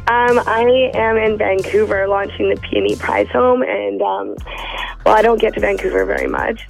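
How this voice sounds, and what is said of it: Raspy morning voice. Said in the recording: “You sound off. ... This is my morning raspy.”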